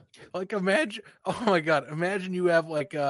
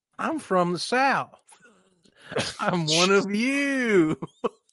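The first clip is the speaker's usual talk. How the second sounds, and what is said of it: Mock put-on Southern accent. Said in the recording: “it's the same as his panic accent.”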